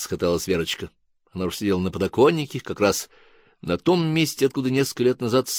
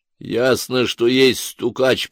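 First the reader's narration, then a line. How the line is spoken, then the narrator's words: Grumbling male voice. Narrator (Russian): пробурчал мужской голос из темного угла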